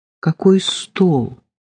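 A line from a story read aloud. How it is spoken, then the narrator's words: Tender question. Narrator (Russian): нежно спросил ее коллега Саша Белошеев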